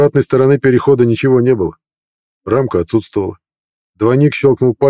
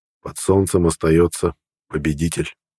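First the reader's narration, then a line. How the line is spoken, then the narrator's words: Parting words. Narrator (Russian): Напутствовал на прощание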